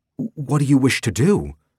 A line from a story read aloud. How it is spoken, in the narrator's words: Thera asked urgently